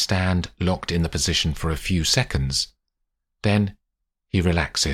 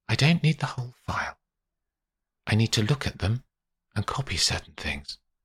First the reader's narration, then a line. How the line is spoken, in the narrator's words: whispers back